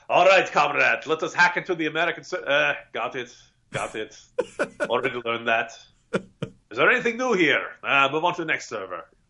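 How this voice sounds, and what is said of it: Put-on Russian spy accent. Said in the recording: “my nefarious Russian spy accent, by the way. You can years of acting school required to do that.”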